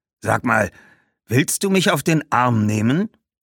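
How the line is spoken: Snapped. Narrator (German): schnauzte der Schuhmacher

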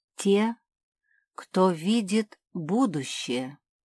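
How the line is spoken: Plain. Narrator (Russian): ответила Лаки

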